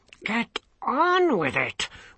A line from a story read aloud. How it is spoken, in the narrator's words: Wants hissed from his position behind the throne